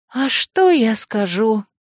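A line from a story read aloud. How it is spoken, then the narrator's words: Dejected sigh. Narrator (Russian): Я уныло вздохнула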